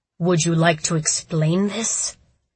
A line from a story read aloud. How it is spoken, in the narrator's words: asked, his voice dangerously low